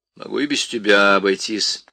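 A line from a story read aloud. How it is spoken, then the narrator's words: Grumbling. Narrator (Russian): проворчала Крис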